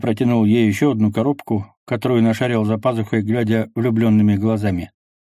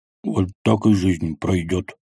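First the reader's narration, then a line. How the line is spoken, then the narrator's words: Grumbled. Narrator (Russian): буркнул Квас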